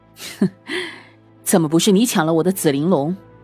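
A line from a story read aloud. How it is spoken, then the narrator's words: Laughing. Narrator (Chinese): 荣昭笑道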